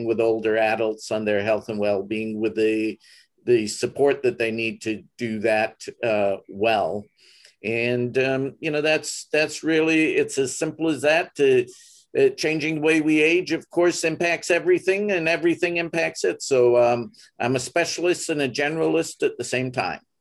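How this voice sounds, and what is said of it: Slight foreign accent. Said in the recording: “it sounds like you got a little bit of an accent.”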